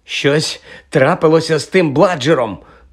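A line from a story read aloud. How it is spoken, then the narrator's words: Hoarse straining gasp. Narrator (Ukrainian): прохрипів Фред, щосили замахуючись биткою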